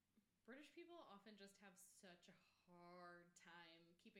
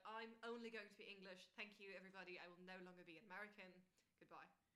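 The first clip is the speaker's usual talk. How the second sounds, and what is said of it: Put-on English accent drifting Australian. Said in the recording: “I got a little Australian at the end. I promise I'm pretty good at accents”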